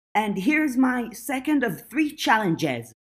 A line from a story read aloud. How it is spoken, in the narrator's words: Verona shouted